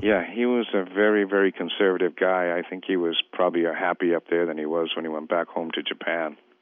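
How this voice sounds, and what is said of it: Massachusetts accent. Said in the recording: “is your accent typical of Guam? ... No, I'm from Hingham, Massachusetts ... it caused me not to lose my accent. ... I knew there was something off.”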